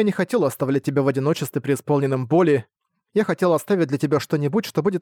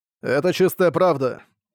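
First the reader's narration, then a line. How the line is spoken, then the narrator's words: Sighing again. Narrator (Russian): в очередной раз вздохнул Хэмэн Ву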